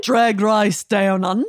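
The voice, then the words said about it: Cartoonish goose-like Australian accent. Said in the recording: “My best Australian accent is Cartoon Goose. The sound of a cartoon... It sounds just like a cartoon goose would.”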